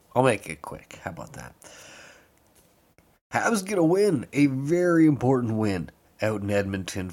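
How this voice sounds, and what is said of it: Hoarse, fading voice. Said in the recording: “I'm losing my voice for some reason.”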